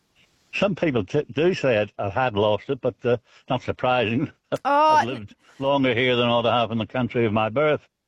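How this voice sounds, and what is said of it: Northern Irish accent with Australian vowels. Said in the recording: “What's your accent? ... Northern Ireland. ... I could hear the Irish accent there. ... You haven't lost the accent. ... you're rounding out your vowels there, which is very Australian”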